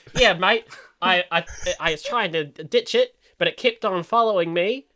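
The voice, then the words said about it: Put-on Australian accent. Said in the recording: “Oh, that's Australian. I can't do it in a British accent ... Okay, I'm gonna go Australian ... See, to me, that sounds more like ... than Australian ... I think you nailed it there”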